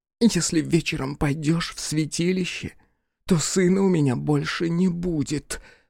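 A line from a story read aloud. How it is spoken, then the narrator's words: Whispered. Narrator (Russian): прошептала Вельга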